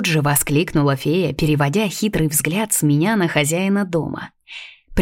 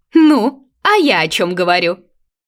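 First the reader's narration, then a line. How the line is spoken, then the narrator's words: Sly giggle. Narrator (Russian): Лукаво хихикнула Ресинта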